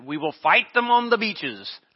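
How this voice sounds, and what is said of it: Weak Winston Churchill impression. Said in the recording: “I can't do a good impersonation”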